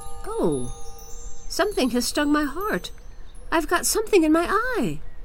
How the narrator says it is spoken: Kai exclaimed

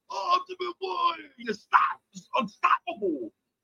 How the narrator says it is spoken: I yelled with her

